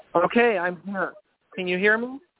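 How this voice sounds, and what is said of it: Talking very loudly. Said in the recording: “I'm talking really loud”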